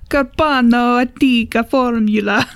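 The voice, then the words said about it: Poor put-on Italian accent. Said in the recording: “your best Italian accent ... That was probably terrible. I'm sorry to every Italian.”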